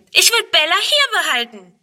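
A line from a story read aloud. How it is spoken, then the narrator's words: Shouting. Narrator (German): schreit Friedrun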